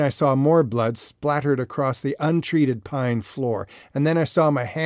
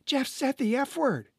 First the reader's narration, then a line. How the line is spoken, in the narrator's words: child shout